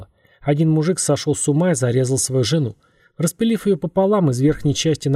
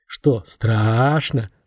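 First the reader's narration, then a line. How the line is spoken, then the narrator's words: Sepulchral voice. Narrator (Russian): загробным голосом спросил Антон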